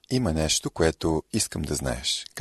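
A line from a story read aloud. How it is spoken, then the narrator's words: Plain. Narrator (Bulgarian): казал той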